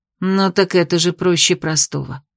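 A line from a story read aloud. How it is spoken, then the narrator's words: Sighing. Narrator (Russian): вздохнула травница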